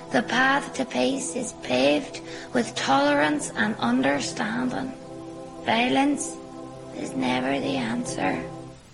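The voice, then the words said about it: Sing-songy Northern Irish accent. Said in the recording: “It is a very sing songy accent, and the intonation goes up a lot. 听起来就是一个很欢乐的口音 ... the Northern Irish accent”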